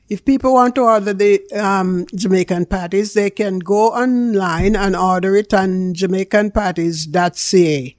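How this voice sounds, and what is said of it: Jamaican accent. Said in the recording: “I am a real Jamaican. You can hear that in my accent.”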